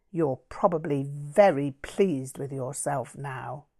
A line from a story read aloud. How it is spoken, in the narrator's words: Todd sneered